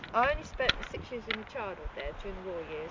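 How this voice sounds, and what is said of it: Soft Devonshire English accent. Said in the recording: “a bit of Devonshire ... Devonshire, yes, that's what it is ... It's a lovely soft accent.”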